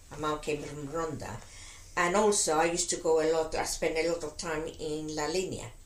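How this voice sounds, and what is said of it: Spanish accent in English. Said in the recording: “you sound to me like a Spanish person speaking English”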